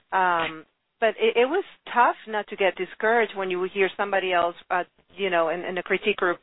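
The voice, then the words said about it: Speaker's own noticeable accent. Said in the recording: “me with my accent getting in the way everywhere ... You can hear my accent.”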